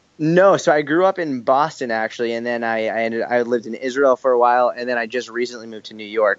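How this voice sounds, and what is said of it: New York Boston accent. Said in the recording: “you've got that kind of boss type, mafia type accent ... that kind of New Yorkian Boston type accent”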